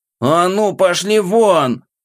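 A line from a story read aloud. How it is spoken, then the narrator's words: Shouting at full strength. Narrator (Russian): что есть мочи, прокричал я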